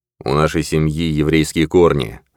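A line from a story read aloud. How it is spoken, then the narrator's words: Thoughtful. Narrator (Russian): задумчиво промолвил Виктор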